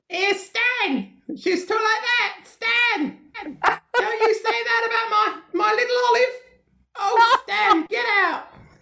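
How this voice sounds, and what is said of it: Imitates a sitcom mother's voice. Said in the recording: “his mother... she was played by an actress called Doris Hare... So I used to do an impression of her”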